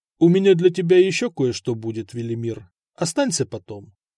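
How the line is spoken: Plain. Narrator (Russian): сказал Самослав

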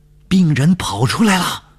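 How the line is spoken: Loud shout. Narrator (Chinese): 我大声地喊叫说

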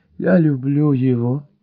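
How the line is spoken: Moaning. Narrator (Russian): простонала леди Райс

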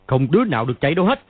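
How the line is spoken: Shouting. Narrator (Vietnamese): hắn quát lên

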